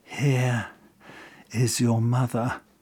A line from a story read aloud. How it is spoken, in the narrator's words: he simply whispered